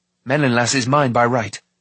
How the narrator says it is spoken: Taran replied sharply

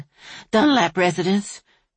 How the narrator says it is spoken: Sally Lou said breathlessly

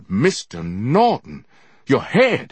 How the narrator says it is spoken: he cried

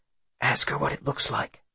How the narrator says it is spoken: Into Marin's ear, Will whispers

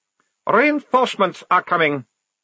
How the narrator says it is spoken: he snapped

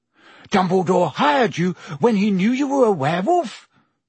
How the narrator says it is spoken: Ron gasped

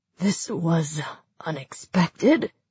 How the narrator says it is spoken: he said weakly

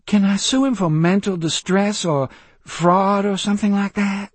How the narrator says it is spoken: she pleaded

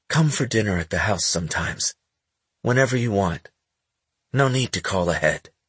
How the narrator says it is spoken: he said in a gentler voice

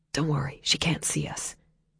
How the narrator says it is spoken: whispered back

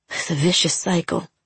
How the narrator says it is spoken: he muttered

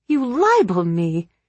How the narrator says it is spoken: Peggy exclaimed

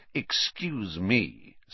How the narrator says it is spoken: said Snape, icily

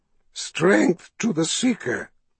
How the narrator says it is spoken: Addy said in a rasp

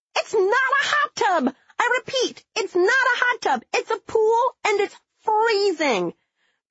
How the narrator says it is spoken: She emerged from the water screaming

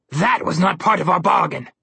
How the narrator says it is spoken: Malamclaw bellowed

